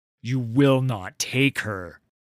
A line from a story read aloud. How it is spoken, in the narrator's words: Udyr spat